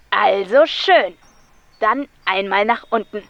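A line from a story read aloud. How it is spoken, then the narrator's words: Crackly speaker voice. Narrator (German): krächzte es aus der Anlage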